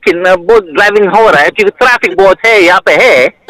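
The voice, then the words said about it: Hindi spoken with put-on Italian accent. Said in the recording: “Speak Hindi and sound Italian? ... it's not easy to put on an accent but then speak another language at the same time ... The accent, it's very hard ... you did it well, though”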